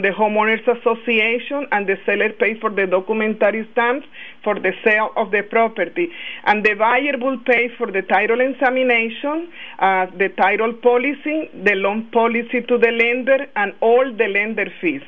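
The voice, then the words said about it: Colombian-accented English. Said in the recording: “I love your accent. ... I am from Barranquilla, Colombia.”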